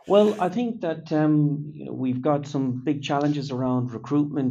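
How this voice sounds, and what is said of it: Non-British accent. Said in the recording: “with the accent, clearly not born and bred”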